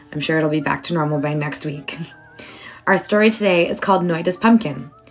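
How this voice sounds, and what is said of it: Congested, funny-sounding voice. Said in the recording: “my voice sounds funny. I have a cold.”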